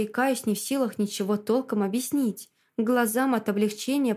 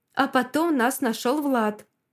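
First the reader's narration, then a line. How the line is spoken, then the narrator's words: Excited. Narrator (Russian): взволнованно выдает Олеся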